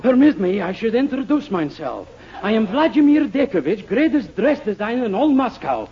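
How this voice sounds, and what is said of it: Russian accent. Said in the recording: “which is a city in Russia and explains my accent”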